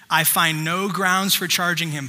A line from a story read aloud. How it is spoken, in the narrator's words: Pilate said